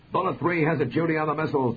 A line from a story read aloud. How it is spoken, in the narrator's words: Douglas' wingman suddenly shouted